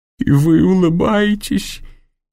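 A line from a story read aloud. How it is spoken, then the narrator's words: Incredulous faltering murmur. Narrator (Russian): недоверчиво пролепетала Клара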